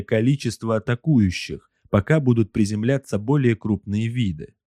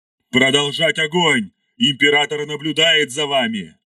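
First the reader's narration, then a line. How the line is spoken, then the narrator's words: Roaring. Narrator (Russian): взревел Ардамаил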